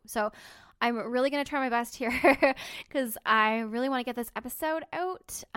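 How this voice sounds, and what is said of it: Crackly, congested sick voice. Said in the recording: “I'm sick, guys ... my voice is probably a little bit crackly, and I probably sound like I have a pound of snot in my nose ... that's probably why I sound so crappy”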